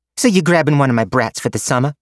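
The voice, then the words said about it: Brooklyn-like accent. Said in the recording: “whatever the hell her accent was. She sounded almost like she was from Brooklyn ... She swapped back.”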